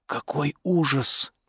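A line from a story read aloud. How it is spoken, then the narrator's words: Whisper. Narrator (Russian): прошептал Дуглас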